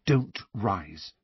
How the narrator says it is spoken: Hermione whispered imploringly to Harry and Ron

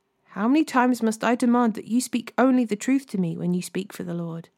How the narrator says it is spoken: the king replied sharply

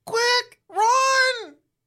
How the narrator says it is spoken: Mike yells

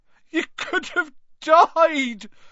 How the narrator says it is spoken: sobbed Hagrid

